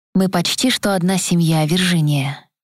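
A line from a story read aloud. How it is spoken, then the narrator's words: Soft, unsmiling reply. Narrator (Russian): мягко ответил Рокпорт без улыбки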